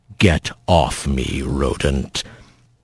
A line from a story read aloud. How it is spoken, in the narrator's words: the bear growling